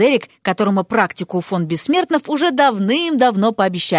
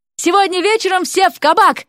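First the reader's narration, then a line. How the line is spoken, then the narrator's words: Parting shout. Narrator (Russian): крикнул напоследок Уилл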